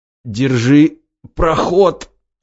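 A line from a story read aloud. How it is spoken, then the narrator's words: Strained forced words. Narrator (Russian): выдавил из себя сталкер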